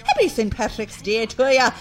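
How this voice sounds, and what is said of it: Bad put-on Irish accent. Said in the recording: “my terrible Irish accent”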